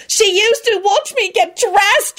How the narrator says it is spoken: Rosie wailed furiously

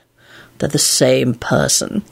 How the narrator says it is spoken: Lupin said wearily

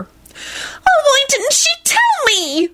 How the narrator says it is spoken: Solange wailed

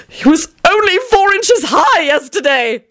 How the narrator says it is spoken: Tony screeched wildly

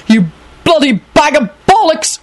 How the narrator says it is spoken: Quentin shouted

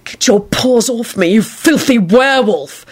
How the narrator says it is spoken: he snarled

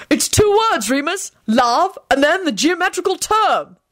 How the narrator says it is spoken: Arthur shouted out

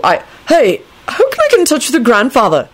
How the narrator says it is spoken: Neville blurted out

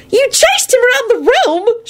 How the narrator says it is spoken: She screeched and giggled again

